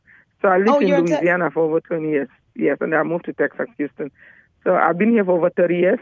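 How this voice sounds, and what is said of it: West African Cameroonian accent. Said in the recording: “I'm originally from West Africa, Cameroon. I'm sure you can hear my really pretty accent.”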